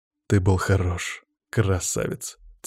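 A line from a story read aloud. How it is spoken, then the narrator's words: Quiet praise. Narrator (Russian): тихо похвалил я его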